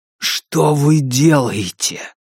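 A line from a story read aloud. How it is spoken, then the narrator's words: Hissed. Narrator (Russian): прошипел Кай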